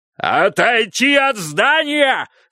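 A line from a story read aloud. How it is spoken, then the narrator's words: Screamed. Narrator (Russian): завопил он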